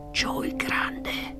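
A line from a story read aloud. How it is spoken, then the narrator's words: Whispered. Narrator (Italian): sussurrò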